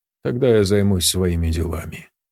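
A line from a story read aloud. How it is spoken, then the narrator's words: Utterly indifferent voice. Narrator (Russian): продолжил Якушев совершенно равнодушным голосом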